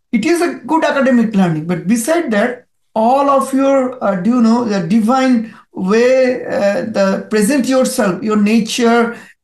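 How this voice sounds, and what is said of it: Indian-accented English. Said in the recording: “the accent of English, the way of fluence is very different ... He is an Indian”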